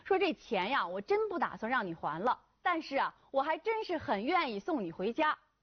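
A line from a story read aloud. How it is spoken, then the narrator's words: Smiling. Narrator (Chinese): 他就笑着对女孩说呀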